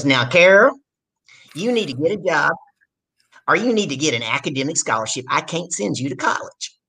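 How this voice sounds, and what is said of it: Imitated strong Southern US accent. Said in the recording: “my dad's got a really southern accent”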